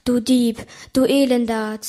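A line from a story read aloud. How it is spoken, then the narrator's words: Hissing. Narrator (German): zischte es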